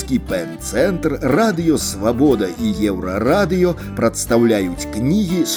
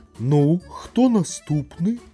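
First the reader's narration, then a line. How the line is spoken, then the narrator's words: Listless, weary question. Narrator (Belarusian): млявым голасам запытаўся першы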